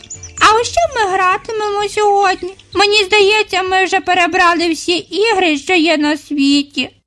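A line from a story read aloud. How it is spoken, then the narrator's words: Sad. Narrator (Ukrainian): сумно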